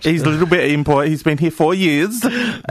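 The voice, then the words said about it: Put-on Austrian accent. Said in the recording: “I should stop trying to take off an Austrian accent”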